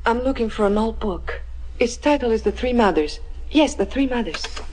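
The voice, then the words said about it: Italian accent. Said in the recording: “That was a real Italian accent.”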